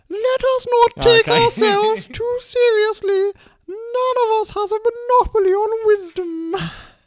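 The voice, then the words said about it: Impression of Queen Elizabeth II. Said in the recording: “do an impression ... Queen Elizabeth II”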